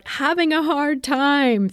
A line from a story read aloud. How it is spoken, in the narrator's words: my toddler, she'll shout